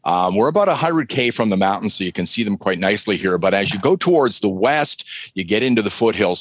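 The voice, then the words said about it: Slight Canadian accent. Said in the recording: “I love hearing your accent ... I start to hear the little Canadian accent in your voice”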